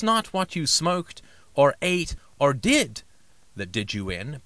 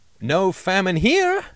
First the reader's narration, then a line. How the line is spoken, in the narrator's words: they cried through the metal of their speared sausages